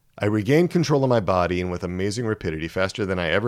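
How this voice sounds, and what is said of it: Usual voice. Nothing is said of it.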